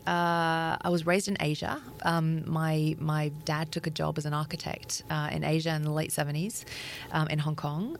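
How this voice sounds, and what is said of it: Australian accent. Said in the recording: “I have an Australian accent, but it's a little bit of a it's a bit of a ruse.”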